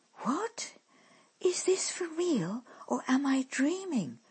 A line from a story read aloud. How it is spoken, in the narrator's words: murmured the girl in amazement